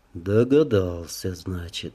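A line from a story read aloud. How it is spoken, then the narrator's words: Calm, matter-of-fact. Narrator (Russian): спокойно, словно констатируя факт, произнес он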